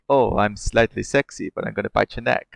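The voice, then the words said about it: Weird muddled sexy vampire accent. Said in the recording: “I don't know what that accent is. I don't know what that is. That was weird. ... North London? ... you sound like one of those people who's just come back from a gap year and can't decide where they've settled their accent.”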